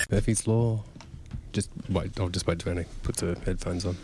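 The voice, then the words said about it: Whispering. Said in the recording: “I just didn't really understand why you were whispering.”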